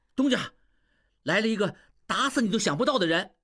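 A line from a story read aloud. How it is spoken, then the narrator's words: Loud shout. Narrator (Chinese): 小栓跑进来大叫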